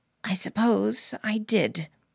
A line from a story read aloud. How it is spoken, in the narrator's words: said, my voice rasping